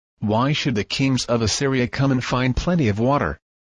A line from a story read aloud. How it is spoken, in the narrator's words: said